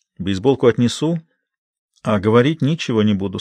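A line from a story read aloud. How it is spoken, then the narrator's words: Calm. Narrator (Russian): спокойно отвечает Памела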